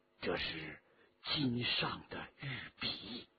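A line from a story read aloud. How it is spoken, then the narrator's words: Low voice. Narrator (Chinese): 沈德潜低声地说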